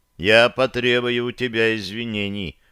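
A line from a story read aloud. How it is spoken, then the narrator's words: Smirking snort. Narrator (Russian): хмыкнул я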